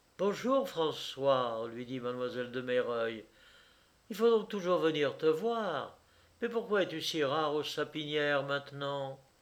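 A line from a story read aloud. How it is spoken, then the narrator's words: Playful, caressing female voice. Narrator (French): Elle lui disait cela avec enjouement et d'une voix caressante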